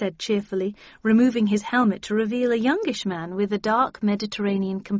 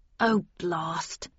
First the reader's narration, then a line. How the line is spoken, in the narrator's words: he muttered